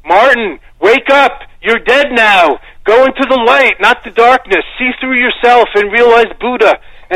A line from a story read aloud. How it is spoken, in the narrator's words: it was like he was shouting in case the dead Martin couldn't hear